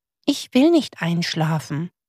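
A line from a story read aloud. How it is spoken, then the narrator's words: Whispered. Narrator (German): flüsterte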